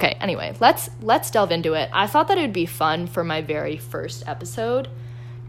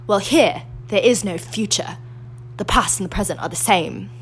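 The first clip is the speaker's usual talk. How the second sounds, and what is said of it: Imitates another person's voice. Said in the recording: “I never said it was a good impression. I said I had an impression.”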